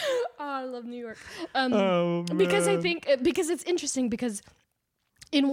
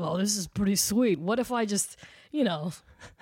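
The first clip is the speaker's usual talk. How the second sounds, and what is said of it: Put-on New York accent. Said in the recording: “the New York accent is crazy”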